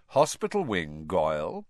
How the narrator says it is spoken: Snape said calmly

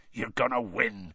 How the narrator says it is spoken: Hagrid growled

